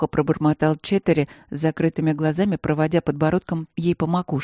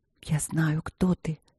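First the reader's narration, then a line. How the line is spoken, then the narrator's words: Whisper. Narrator (Russian): прошептала она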